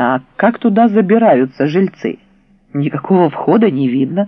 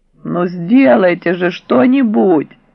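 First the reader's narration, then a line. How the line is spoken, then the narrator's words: Mother's moaning plea. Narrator (Russian): простонала мамуля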